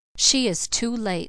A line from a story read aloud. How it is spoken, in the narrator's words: said Elnora coldly